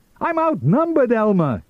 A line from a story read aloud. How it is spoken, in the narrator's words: he cried